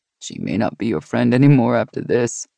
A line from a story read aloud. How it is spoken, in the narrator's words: he said with a chuckle